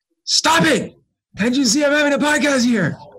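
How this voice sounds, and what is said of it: Mock yelling. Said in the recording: “I can go yell at them in my mindfulness voice.”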